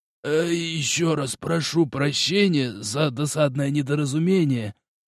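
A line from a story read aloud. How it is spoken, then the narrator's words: Wheezy, out of breath. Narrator (Russian): просипел глава делегации, на силу восстановив дыхание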